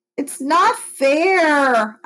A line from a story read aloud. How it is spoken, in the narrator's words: moaned